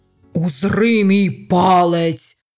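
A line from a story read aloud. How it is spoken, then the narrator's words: Shouting. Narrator (Ukrainian): закричав Шадвелл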